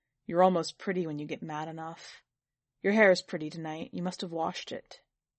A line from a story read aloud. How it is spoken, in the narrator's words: He said in a deep, chuckling voice